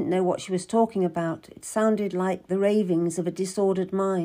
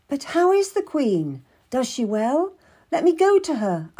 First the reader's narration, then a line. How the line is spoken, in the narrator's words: I cried